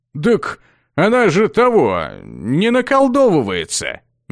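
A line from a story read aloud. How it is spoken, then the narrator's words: Uncertain young man. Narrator (Russian): Неуверенно припомнил парень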